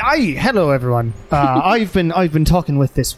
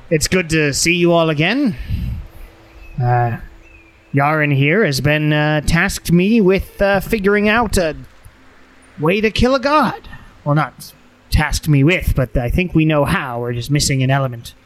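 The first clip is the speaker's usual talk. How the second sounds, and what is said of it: Gnome character voice. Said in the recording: “this wonderful, brilliant gnome here, Madwa. ... I don't remember what her voice was, but it's this now.”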